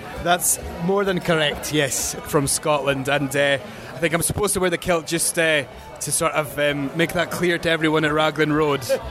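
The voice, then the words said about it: Scottish accent. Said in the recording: “I'm going to guess by your accent and the kilt that you are not an Orlando native. And would I be incorrect if I said you were from Scotland?”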